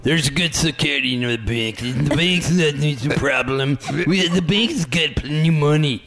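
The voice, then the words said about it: Imitates another person's voice. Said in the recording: “Do I do a good imitation of him? ... That's pretty good.”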